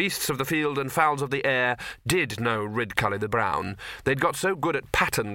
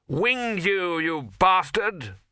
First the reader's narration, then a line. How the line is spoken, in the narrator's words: he normally shouted